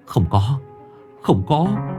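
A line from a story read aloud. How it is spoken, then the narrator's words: Trembling. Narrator (Vietnamese): ông run rẩy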